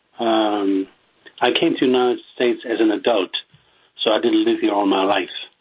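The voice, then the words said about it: Strong German accent. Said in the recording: “my strong German accent”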